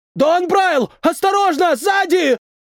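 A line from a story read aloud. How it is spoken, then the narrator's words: Shouted warning. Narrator (Russian): Прокричал кто-то глазастый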